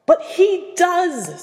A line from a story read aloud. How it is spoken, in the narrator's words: snapped Percy